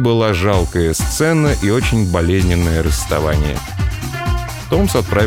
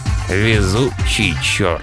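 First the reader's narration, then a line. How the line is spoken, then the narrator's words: Grumbling. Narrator (Russian): проворчал Верис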